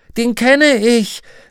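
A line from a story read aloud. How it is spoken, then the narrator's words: Several voices calling. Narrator (German): rief jemand, und andere stimmten ein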